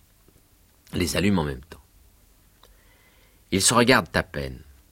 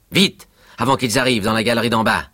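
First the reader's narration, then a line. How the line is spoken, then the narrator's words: Urgent shout. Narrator (French): crie Lyca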